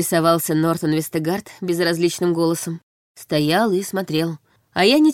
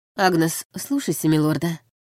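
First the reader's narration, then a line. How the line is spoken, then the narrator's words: Tired reply. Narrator (Russian): отозвалась я устало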